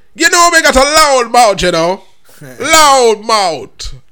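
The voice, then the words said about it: Put-on Jamaican accent. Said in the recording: “in a Jamaican accent”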